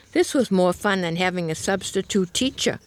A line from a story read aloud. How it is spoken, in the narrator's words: one lad exclaimed